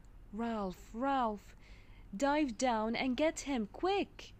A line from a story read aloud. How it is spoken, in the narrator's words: he exclaimed